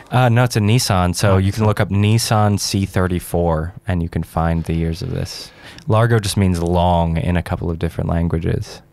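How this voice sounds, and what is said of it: Non-local accent. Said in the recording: “does have an accent. He's not exactly a local”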